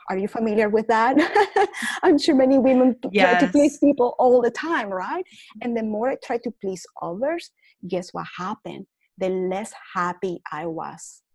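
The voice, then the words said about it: Noticeable accent with mispronunciations. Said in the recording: “I have an accent. Now, instead of being ashamed of my accent and mispronunciations”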